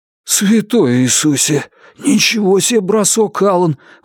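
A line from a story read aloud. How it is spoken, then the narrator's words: Breathless exclamation. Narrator (Russian): выдохнул Джон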